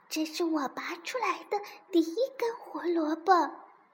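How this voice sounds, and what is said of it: Quiet murmur to oneself. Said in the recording (Chinese): “小声对自己说”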